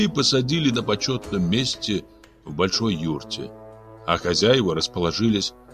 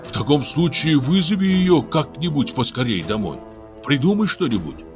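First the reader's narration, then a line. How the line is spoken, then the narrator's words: Pleading. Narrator (Russian): Дармен взмолился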